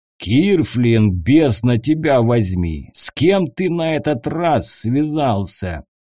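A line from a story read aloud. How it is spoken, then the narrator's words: Deep bass voice. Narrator (Russian): пробасил человек в накидке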